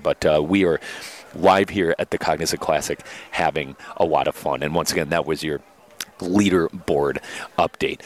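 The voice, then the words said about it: Hushed golf announcer voice. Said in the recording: “I love your golf announcer voice. ... I got to make sure I'm quiet out here.”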